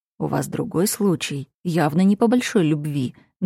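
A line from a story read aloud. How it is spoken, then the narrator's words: Quiet but confident. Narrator (Russian): говорю тихо, но уверенно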